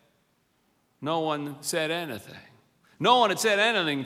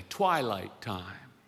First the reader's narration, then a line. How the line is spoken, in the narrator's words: Dave started to sing quietly